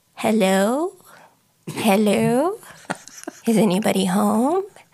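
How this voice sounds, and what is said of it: Old grandma voice. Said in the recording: “your old grandma voice”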